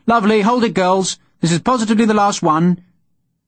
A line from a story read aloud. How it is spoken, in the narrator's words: The photographer called out